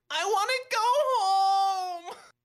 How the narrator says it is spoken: Katie wails

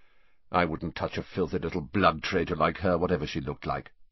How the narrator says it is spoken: said Zabini coldly

